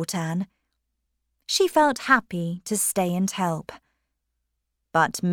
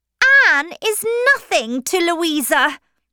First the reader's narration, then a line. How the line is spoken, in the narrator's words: shouted